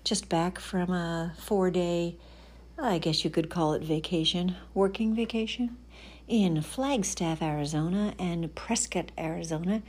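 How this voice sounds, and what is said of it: Tired-sounding voice. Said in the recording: “I sound a little tired, it is because I am”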